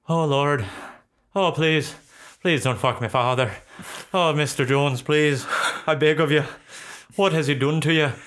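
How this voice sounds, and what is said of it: Put-on Irish accent. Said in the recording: “speaking in Irish accent”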